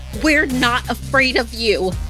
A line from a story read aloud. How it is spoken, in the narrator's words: shouting through the window at the skinwalker